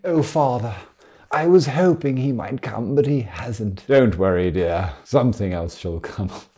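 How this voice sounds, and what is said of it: Brontë-style period drama character voices. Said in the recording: “This really calls for more Emily Bronte impersonations”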